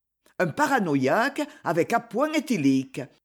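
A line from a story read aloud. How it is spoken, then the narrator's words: Firmer tone. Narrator (French): répond Croulebois d'un ton plus affermi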